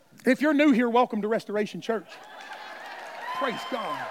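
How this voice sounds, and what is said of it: Usual voice. Nothing is said of it.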